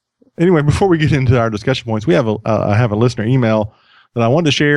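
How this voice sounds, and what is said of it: Usual voice. Nothing is said of it.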